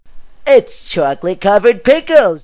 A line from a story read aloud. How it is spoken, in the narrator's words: shouted out of pure excitement